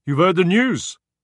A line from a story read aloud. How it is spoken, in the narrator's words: he boomed